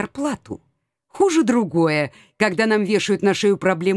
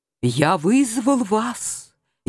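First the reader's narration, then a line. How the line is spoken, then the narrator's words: Barely audible voice. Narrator (Russian): еле слышным голосом начал он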